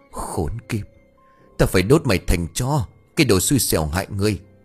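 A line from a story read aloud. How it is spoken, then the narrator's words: Hissing through teeth, furious. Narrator (Vietnamese): đôi mắt đỏ ngầu long lên, rít qua kẽ răng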